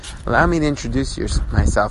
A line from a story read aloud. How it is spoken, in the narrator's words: he whispered softly